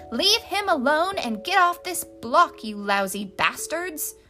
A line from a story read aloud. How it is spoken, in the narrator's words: a woman clutching a crepe paperish kimono around her sprawling breasts yelled out